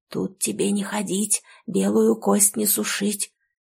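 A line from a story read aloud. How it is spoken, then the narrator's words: Whispered incantation. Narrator (Russian): нашептав на ведро с водой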